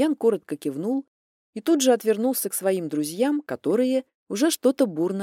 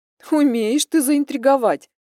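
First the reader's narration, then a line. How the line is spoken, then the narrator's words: Laughing. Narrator (Russian): хохотнула подруга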